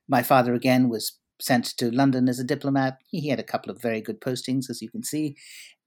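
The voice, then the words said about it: British-sounding Anglophone Indian accent. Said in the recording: “that's not a Brooklyn accent you have ... It sounds a little more British. ... It's a combination of Anglophone Indian and Britain.”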